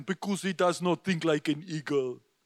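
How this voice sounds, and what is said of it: Imitated African accent. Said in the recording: “he said this in his African accent”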